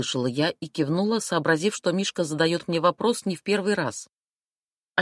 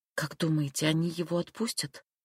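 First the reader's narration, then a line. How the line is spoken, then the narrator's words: Quiet question after pause. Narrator (Russian): тихо спросила Эмма, помолчав немного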